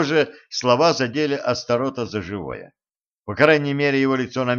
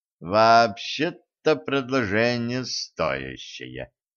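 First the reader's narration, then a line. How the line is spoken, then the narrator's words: Thoughtful drawl. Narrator (Russian): задумчиво протянул Кощей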